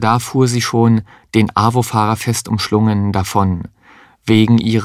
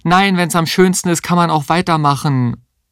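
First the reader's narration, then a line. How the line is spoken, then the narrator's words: Calling after her. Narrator (German): rief ihr hinterher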